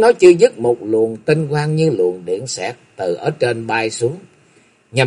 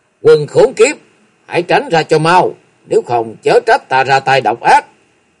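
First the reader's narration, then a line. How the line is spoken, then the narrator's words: Loud shout. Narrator (Vietnamese): tiếng quát to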